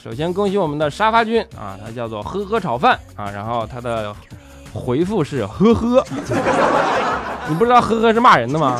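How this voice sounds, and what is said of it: Northeastern Chinese accent, youthful voice. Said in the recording (Chinese): “带东北口音的……你的声音跟笑啊有一点点少年的青涩”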